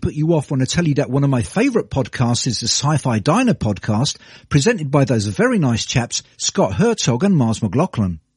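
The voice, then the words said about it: British English accent. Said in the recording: “you've probably guessed from my accent that I'm a Brit ... don't let my accent”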